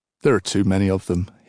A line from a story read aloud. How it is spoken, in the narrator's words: he said